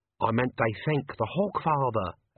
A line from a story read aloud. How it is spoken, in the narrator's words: Albert hissed